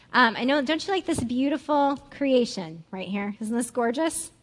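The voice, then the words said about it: Sarcastic mock-admiring tone. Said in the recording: “I'm being sarcastic.”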